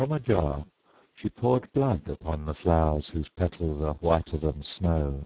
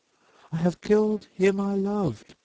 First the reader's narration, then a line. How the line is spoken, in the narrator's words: she cried